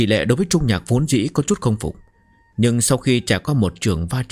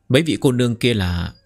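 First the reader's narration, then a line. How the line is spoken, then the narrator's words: Delighted smiling. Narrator (Vietnamese): Trung Nhạc đại hỉ, mỉm cười nói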